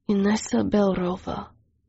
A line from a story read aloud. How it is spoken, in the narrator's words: he murmured